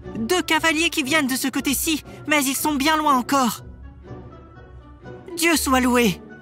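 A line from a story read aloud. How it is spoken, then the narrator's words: Exclaimed. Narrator (French): s'écria-t-elle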